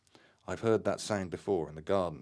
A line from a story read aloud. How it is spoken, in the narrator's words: Terry exclaimed excitedly